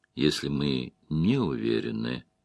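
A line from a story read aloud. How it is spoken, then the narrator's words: Soft interrupting remark. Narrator (Russian): мягко заметила Верин, перебив его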